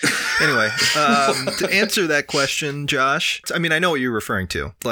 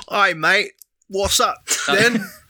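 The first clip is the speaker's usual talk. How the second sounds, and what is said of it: Put-on English accent. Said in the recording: “that's my best English accent that I could muster”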